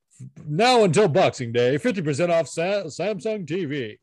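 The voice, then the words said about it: Radio announcer voice. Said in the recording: “super radio voice just now”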